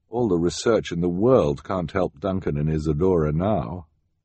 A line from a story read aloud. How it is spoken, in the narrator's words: Sunny said sadly